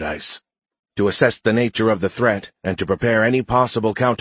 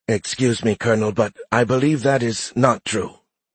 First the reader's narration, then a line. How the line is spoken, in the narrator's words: Tutula said stiffly